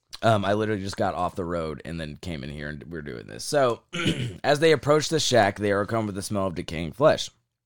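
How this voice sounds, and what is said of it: Hoarse, nearly lost voice. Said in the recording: “I gotta cough again ... my voice is gone. My voice is completely gone.”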